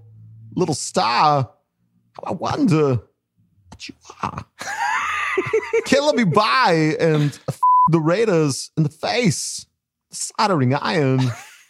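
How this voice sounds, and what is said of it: Imitates another person's voice. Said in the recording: “Oh, Christopher Walken is so good. ... My Christopher Walken impression.”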